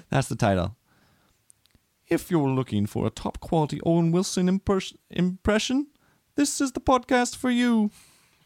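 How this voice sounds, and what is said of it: Put-on English accent. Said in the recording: “Do it in a UK accent, though. ... How many UK accents are there? ... in an English accent?”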